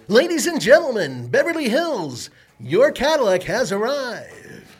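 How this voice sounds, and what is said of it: Announcer-style radio voice. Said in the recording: “my radio voice”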